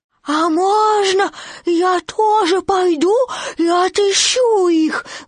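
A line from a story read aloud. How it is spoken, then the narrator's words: Excited question. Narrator (Russian): взволнованно спросил Ру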